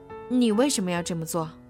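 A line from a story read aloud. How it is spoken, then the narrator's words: Plain. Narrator (Chinese): 赛克问他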